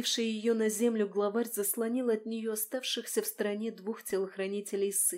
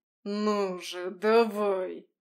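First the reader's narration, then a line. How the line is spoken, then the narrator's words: Hissing. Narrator (Russian): прошипел он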